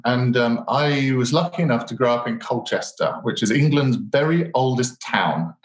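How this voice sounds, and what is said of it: British accent. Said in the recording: “my British accent,”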